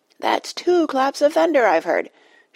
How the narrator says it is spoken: shouted Dulcibel

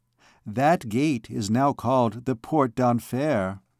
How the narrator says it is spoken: said Fleur-de-Lis gently

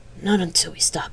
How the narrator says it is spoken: she replied hoarsely

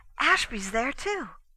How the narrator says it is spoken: announced excitedly

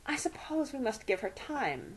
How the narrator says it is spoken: murmured

